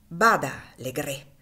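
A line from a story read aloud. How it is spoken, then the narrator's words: Woman exclaiming, sinister menace. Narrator (Italian): esclamò la donna con uno sguardo che scintillò di una luce sinistra terribile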